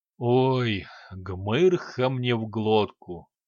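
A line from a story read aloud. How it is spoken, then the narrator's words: Groaning. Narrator (Russian): простонал он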